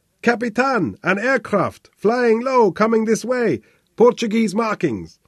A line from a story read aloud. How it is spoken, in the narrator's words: the lieutenant shouted into von Kleiner's face